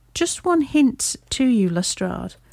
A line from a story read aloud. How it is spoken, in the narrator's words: drawled Holmes